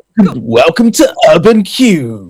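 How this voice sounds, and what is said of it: Radio presenter voice. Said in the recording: “putting my radio voice on”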